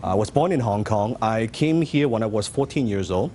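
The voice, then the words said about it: Non-native English accent. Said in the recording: “You can tell from my accent.”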